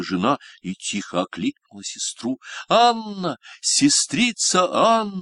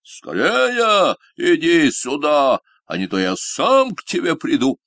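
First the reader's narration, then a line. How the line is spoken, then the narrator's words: Shouting at full strength. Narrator (Russian): Синяя Борода кричал, что было мочи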